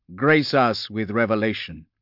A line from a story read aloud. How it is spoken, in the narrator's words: said Covenant, his voice loud in the stillness